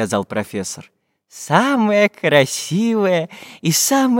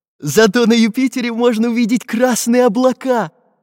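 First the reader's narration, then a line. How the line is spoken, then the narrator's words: Cheerful. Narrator (Russian): весело подмигнул Карандаш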